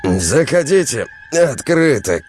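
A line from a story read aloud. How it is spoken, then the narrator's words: Sleepy shout. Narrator (Russian): крикнул он с просонья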